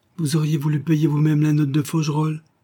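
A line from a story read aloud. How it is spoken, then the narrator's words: Exclaimed. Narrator (French): s'écria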